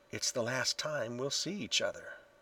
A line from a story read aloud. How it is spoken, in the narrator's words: he whispered